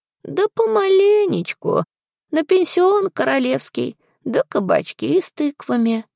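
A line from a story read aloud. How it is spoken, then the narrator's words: Sad old woman's sigh. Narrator (Russian): вздохнула бабулька печально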